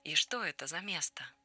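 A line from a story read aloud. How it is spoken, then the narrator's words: Calm, reassured. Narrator (Russian): девочке стало спокойно, и она добавила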